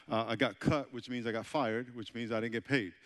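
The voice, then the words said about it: New York accent. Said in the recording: “I know I have an accent, right? I'm from New York.”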